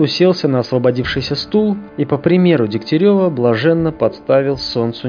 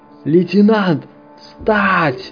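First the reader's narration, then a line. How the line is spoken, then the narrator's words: Yelled, suddenly coming to. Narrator (Russian): заорал он, опомнившись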